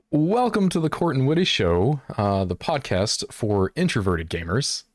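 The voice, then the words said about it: Announcer-style radio voice. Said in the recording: “You got the radio voice.”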